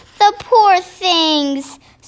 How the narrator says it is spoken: Sophie cried

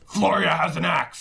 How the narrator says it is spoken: Everest is running back into the cornucopia, and is shouting at Xander

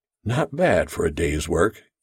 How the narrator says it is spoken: he murmured quietly to himself

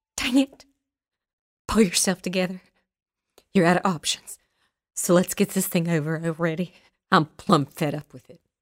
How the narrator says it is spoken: she whispered to herself

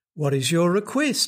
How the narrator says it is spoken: he asked

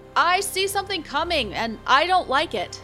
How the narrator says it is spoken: a crew member called out

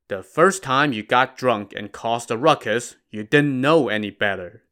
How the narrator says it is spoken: the abbot said

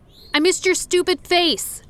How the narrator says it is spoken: I blurted out

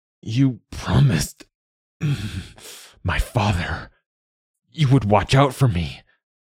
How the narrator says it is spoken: Philbrek gasped out the words

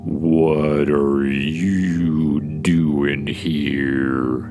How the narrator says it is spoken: the voice says, painfully slowly

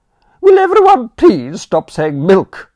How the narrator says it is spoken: Aunt Agatha cried

